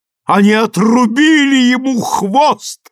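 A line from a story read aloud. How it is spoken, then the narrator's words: Breathless shout. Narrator (Russian): крикнула, задыхаясь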